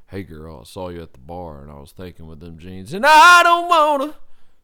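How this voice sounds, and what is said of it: Imitates a talk-singing singer's voice. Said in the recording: “my Sam Hunt impression ... It's just talk and then sing the chorus.”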